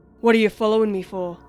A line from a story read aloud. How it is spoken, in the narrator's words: grunted